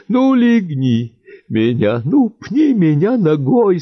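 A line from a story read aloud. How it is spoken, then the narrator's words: Whining. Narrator (Russian): скулил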